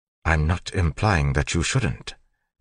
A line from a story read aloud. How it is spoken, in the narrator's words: Tyndall said calmly